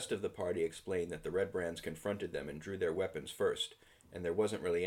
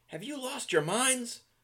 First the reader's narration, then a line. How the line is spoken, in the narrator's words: Harbin yelled